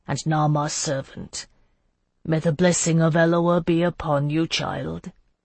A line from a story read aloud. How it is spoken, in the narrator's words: he murmured